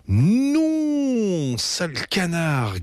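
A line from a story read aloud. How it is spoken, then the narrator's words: Shrill yelp. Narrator (French): glapit Betty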